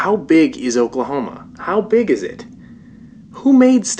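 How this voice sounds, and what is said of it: Usual voice. Nothing is said of it.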